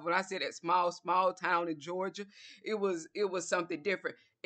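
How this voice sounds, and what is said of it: Southern US accent. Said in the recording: “because of my accent. Okay, so he knew it was from the south”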